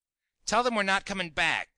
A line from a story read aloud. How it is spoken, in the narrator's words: snapped Kingsley